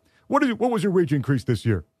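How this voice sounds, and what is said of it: Weak Bernie Sanders impression. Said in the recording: “I don't do a good Bernie impression.”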